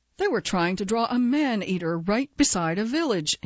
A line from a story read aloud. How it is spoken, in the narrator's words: exclaims